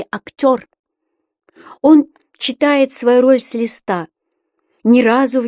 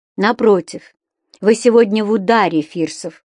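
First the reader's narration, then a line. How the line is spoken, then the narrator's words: Stern, cold reply. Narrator (Russian): сурово и холодно отозвалась Таня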